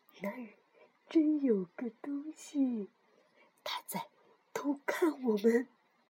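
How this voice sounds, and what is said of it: Speaking in a low voice. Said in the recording (Chinese): “小声地说”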